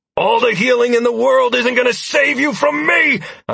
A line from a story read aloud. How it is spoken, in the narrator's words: I shouted at the man